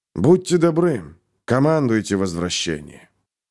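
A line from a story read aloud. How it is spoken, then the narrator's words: Sad sighing request. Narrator (Russian): Печально вздохнув, попросил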